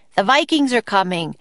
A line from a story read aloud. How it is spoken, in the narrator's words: Jack shouted